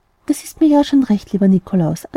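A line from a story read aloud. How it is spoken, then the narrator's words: Plain. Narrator (German): antwortete das Christkind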